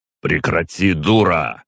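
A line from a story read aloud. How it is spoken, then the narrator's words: Harsh bark. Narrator (Russian): снова рявкнул, вкладывая в голос всю возможную резкость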